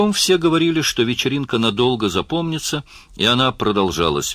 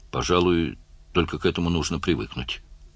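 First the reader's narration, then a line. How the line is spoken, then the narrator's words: Mutter. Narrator (Russian): пробормотал Барни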